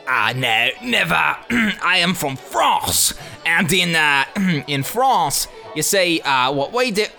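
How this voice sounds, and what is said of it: Unconvincing put-on French accent. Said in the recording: “didn't sound very French.”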